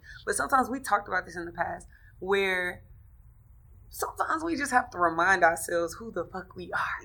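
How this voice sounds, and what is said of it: Hoarse, strained voice. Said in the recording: “Excuse me. I guess I'm losing my voice.”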